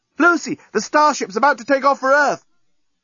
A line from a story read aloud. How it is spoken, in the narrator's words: It was the journalist, shouting from the breakwater